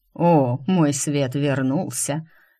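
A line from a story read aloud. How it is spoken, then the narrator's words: Snorting. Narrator (Russian): хмыкнул Роне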